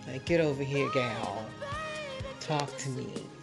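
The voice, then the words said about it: Put-on Southern drawl. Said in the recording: “That southern trill.”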